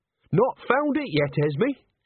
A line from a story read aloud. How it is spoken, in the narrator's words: said Nanny brightly